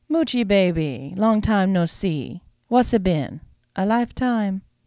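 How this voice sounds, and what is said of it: Sultry voice, lilting island accent. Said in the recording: “a sultry voice ... accent lilted with that island cadence that seems forced when you first hear it”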